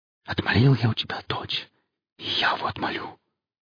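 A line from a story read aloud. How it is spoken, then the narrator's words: Confident whisper. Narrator (Russian): зашептал он с какой-то непонятной уверенностью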